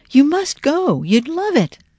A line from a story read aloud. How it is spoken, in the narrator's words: gasped